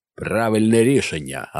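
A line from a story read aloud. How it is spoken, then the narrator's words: Bark. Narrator (Ukrainian): гаркнув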